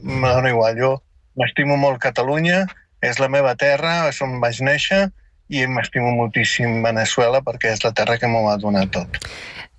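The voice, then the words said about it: South American accent speaking Catalan. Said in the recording (Catalan): “em pregunten que si sóc xilè o sóc de Paraguai, perquè tinc un accent sud-americà”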